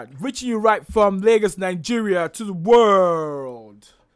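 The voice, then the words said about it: Announcer-style radio broadcaster voice. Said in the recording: “That's the radio voice. ... it's the way you switch from a podcaster to a broadcaster to a disc jockey.”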